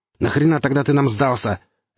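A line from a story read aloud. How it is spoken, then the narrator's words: Barked. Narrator (Russian): рявкнул Гриф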